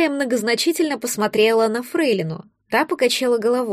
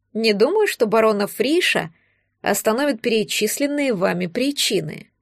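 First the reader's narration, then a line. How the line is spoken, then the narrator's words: Calm remark. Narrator (Russian): спокойно заметила Амалия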